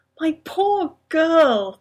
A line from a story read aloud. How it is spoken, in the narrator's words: the Doctor moaned